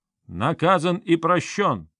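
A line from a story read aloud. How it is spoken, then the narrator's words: Admiring, loud elder's proclamation. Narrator (Russian): Князь Чигор восхищенно цокнул языком и, как старший по годам, громко выкрикнул древнюю формулу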